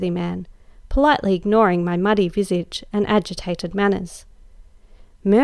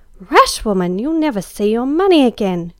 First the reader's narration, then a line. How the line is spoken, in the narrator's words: cried Em